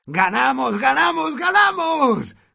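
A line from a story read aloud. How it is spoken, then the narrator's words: Shouting. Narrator (Spanish): gritaba Ron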